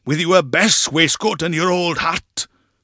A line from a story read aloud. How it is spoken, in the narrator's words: he said sternly